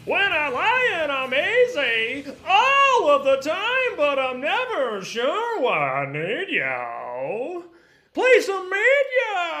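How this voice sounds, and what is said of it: Imitates another person's singing voice. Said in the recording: “his Fred Schneider impression. He loves to do songs as Fred Schneider.”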